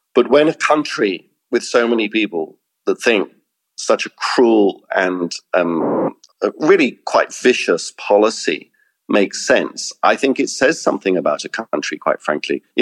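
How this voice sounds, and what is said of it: British accent. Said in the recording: “I am British. Listen to my accent.”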